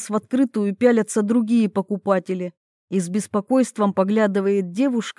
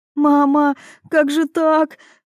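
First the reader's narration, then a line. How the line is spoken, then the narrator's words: Girl sobbing. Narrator (Russian): Рыдает моя девочка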